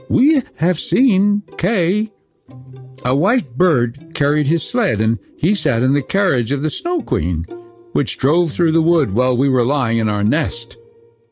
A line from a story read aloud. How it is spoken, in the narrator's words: the wood pigeons piped up and said